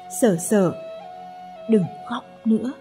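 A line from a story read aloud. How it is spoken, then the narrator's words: Gentle, smiling. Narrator (Vietnamese): Chàng mỉm cười, dịu dàng nói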